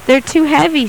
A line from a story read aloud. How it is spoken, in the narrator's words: she sighed